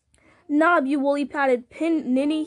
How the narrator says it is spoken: cried

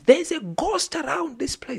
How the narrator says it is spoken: suddenly somebody screamed

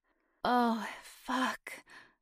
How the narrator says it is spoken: moaned

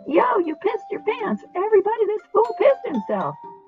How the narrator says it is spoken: they talked over him, howling and shrieking

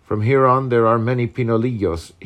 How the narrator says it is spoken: he said

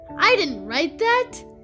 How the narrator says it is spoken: exclaimed Babe

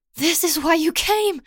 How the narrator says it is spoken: pants

